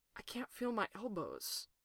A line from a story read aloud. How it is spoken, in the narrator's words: he whispered